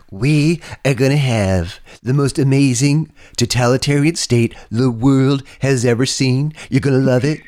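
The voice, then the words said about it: Deliberately bad impression of a politician. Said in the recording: “really bad impression of Donald Trump ... a really bad impression of”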